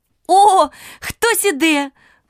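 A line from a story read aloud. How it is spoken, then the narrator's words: Exclamation. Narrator (Ukrainian): вигукнула нарешті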